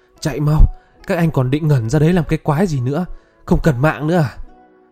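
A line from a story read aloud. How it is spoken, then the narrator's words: Loud urgent shout. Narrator (Vietnamese): Hồ Dương vừa lùi lại vừa hét lớn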